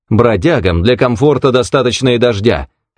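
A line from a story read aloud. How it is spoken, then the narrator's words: Sharp. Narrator (Russian): резко сказал незнакомец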